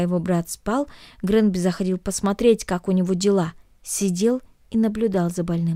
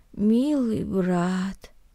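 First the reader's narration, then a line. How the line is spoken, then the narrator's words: Muttering. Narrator (Russian): пробормотал Наэль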